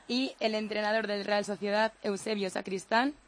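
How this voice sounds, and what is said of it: Radio announcer voice. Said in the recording (Spanish): “tiene voz de locutora”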